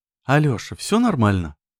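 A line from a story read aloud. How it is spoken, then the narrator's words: Worried repeated question. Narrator (Russian): Взволнованно спросила она 5 раз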